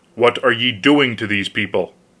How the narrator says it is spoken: said sharply to the peasants

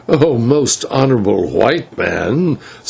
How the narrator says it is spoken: said Zibalbay with a bitter laugh

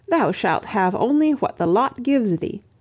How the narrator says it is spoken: one of his Franks cried out

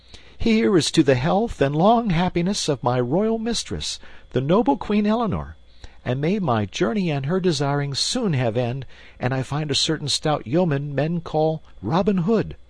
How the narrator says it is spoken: Young Partington cried

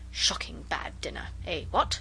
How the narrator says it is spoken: we heard him mutter to himself

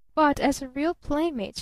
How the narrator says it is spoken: she persisted evenly

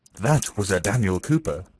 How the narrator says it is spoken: exclaimed Maria Dmitrievna, puffing heavily

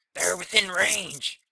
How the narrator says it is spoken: cried Ogle

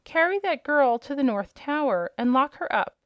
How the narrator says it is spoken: cried the princess

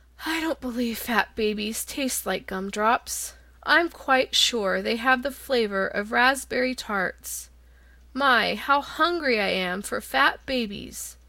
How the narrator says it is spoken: The lion grunted disdainfully

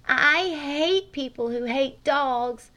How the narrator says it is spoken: she cried out abruptly

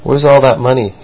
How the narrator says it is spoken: he asked

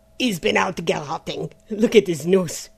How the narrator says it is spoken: laughed Gernalec

